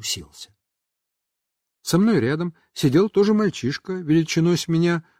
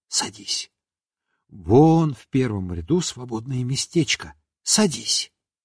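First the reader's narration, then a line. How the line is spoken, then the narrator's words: Whisper. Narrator (Russian): Марья Николаевна шепнула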